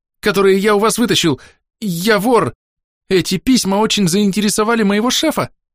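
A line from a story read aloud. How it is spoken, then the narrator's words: Flustered babbling. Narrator (Russian): залепетал Архалус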